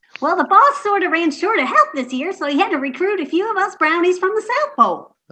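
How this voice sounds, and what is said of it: Character voice with Southern accent. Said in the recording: “What are you doing at the North Pole with a southern accent?”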